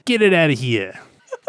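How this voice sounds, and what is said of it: New Jersey accent. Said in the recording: “Is that your New Jersey ... coming out accent?”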